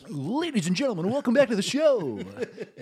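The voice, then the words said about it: Announcer-style radio voice. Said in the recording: “you do your radio voice”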